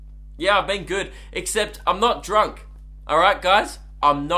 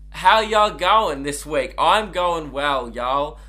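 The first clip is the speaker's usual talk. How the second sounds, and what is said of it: Put-on Southern American accent. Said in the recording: “I'm going to stop the southern accent.”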